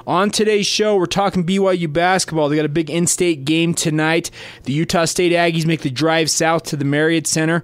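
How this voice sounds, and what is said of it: Congested head-cold voice. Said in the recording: “apologize right up front for my voice, dealing with a little bit of a head cold... if my voice sounds a little funky today”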